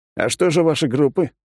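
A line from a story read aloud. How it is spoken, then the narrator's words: Scoffing reply. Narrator (Russian): хмыкнул в ответ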